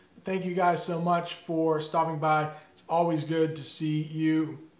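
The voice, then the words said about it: Strained, worn-out voice. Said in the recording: “my voice is not working anymore”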